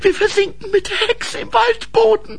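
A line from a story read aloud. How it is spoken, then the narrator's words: Called out. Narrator (German): rief Grete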